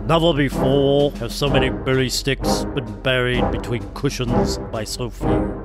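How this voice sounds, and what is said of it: Imitates another person's voice. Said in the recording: “my Winston Churchill impression”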